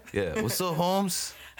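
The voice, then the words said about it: Put-on Latino accent. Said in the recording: “my you impression ... I have a Mexican accent in your mind ... it was some sort of Latinx”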